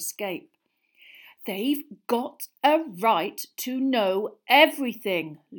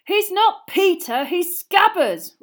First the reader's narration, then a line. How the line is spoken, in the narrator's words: Ron yelled